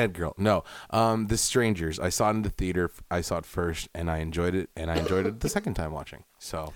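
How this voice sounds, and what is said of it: Usual voice. Nothing is said of it.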